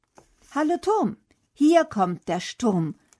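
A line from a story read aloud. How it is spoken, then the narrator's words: Calling out. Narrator (German): ruft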